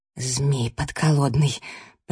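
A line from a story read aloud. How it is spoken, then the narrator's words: Whisper. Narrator (Russian): прошептала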